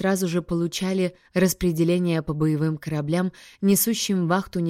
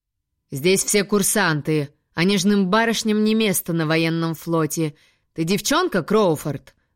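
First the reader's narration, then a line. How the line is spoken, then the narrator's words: Growling instructor. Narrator (Russian): рычал мастер по физической подготовке и рукопашному бою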